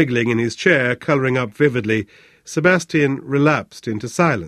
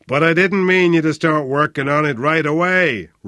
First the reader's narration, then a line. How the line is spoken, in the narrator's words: roared